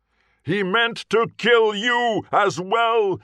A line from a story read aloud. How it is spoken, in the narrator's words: he roared